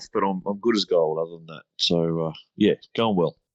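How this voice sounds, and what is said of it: Congested, slightly off voice. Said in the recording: “I'm suffering from hay fever, so uh, my voice is going to sound a little off”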